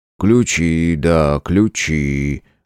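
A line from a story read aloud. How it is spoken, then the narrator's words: Absent-minded reply. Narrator (Russian): Рассеянно отозвался Васюков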